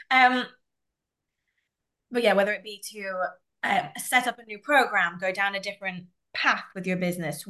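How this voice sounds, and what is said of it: Rough, unwell-sounding voice. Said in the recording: “I am also recovering from a cold, so please excuse my voice right now.”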